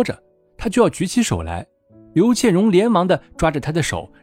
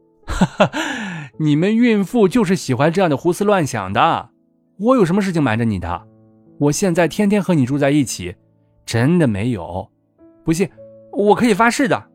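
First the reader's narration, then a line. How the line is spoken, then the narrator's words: Hearty laughter. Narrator (Chinese): 景少云哈哈大笑道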